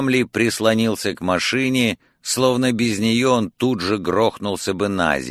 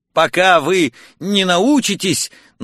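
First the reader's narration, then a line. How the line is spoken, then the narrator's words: Embarrassed stammering. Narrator (Russian): начал я, запинаясь и заливаясь краской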